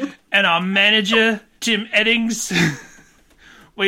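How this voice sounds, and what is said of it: Usual voice. Nothing is said of it.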